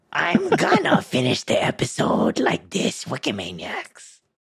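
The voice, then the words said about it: Goblin character voice. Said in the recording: “ghoul and goblin voice”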